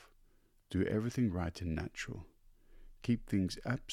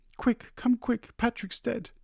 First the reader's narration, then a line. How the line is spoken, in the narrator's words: she cried to him